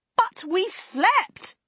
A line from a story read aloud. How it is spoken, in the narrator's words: Nessel shouted at him